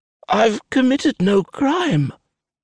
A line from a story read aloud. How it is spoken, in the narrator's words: he rasps, his voice weak and pathetic